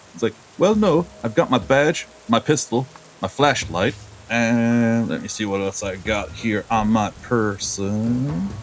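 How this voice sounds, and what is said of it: Character voice with inconsistent accent. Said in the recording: “I know that my accent is changing in scene, because I'm trying.”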